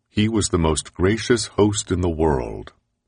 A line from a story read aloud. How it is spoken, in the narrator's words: says one ex-legislator